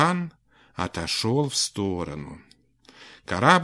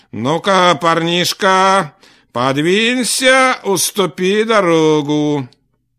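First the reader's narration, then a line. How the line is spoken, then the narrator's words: Stern shout through megaphone. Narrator (Russian): сказал и прокричал в рупор строгим голосом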